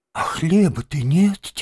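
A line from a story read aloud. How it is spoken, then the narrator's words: Heavy sigh. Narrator (Russian): тяжко вздохнул крот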